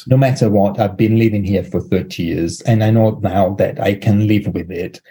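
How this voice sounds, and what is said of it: Non-native English inflection. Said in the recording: “accent, but it's not really ... it's an inflection. I place stress in the wrong place. And sometimes the initial H and or non-H in words”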